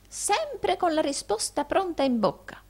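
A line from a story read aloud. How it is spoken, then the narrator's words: Admiring old man's exclamation. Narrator (Italian): esclamò il vecchio Arturo ammirati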